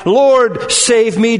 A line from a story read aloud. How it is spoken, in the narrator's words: Peter cried